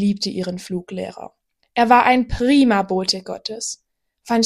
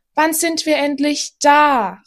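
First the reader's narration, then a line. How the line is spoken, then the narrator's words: Calling out. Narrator (German): rief Efi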